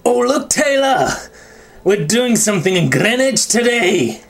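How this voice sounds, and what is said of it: Attempted Scottish accent, sounds angrily Welsh. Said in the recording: “in a Scottish accent ... That was like a mix ... that was like a Northern Welshman ... That was a very angry Welshman”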